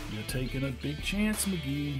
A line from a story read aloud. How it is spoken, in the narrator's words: mumbled Baker